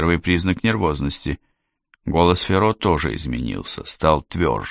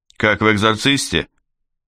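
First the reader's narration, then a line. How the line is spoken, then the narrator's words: Joking, detached tone. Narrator (Russian): Адвокат заговорил шутливым тоном, отстраненным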